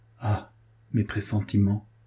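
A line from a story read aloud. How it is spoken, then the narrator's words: Murmured. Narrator (French): murmura-t-il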